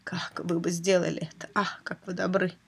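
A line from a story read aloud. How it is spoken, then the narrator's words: Mumble. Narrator (Russian): пробормотал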